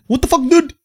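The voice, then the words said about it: Imitates another person's voice. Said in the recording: “my impersonation of XQC... That's pretty good. It's pretty good. It's pretty on point.”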